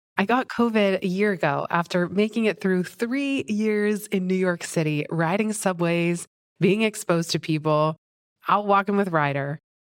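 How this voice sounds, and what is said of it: Scratchy throat, slightly sick voice. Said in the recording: “I have a little cold. My throat's a little scratchy.”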